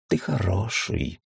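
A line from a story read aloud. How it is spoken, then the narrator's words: Sleepy. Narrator (Russian): сказал он сонно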